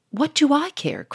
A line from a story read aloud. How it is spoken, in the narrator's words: cried Sonia